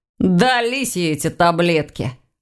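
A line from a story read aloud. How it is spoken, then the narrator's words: Grumble. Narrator (Russian): проворчал Ваня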